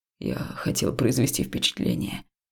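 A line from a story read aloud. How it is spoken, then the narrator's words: Quiet admission. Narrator (Russian): негромко признался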